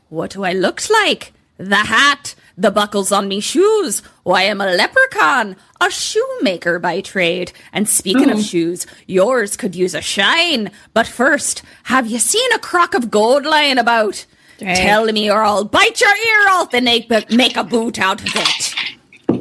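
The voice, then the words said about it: Put-on leprechaun accent, getting worse. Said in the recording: “Do you see how it's slowly getting worse? ... The accent. ... The accent. ... My accent actually tracks the trajectory of the movie, the worse my accent gets.”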